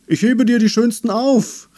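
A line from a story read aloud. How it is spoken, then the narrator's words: Bush calling after. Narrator (German): rief ihr der Busch hinterher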